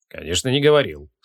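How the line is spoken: Calm agreement. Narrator (Russian): спокойно согласился маг

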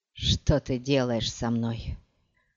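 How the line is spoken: Breathed out. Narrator (Russian): выдохнул Хейт

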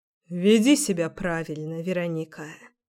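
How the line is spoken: Tired. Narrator (Russian): сказал он устало

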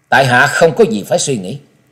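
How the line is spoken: Cold reply. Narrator (Vietnamese): Trần Lâm giọng lạnh lùng trả lời

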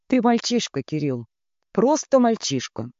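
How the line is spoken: Flat, clinical, final. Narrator (Russian): повторила она ровным голосом, будто читая диагноз, не подлежащий обжалованию

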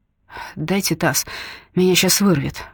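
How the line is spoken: Groaning. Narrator (Russian): простонал Андрей

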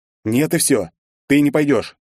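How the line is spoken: Sharp, exasperated declaration. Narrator (Russian): не выдержав, резко заявил я

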